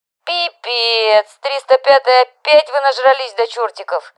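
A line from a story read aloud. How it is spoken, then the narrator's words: Squeaky young woman's voice. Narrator (Russian): пропищала студентка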